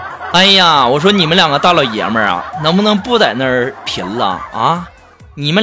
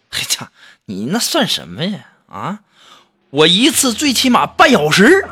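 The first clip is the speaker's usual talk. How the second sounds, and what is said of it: Quiet, hushed voice. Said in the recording (Chinese): “小声的说”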